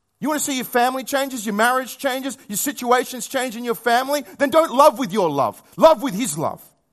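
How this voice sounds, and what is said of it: Raised, loud voice. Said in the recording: “Sorry, I'm raising my voice”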